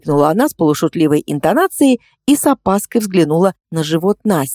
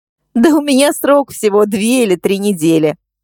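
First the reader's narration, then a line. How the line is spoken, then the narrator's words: Laughing. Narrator (Russian): рассмеялась она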